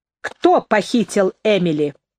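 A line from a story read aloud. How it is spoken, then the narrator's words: Sharp question. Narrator (Russian): резко спросила Нэнси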